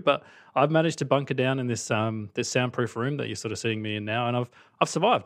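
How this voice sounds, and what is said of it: Australian accent. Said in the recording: “The accent is real. I'm actually from Australia.”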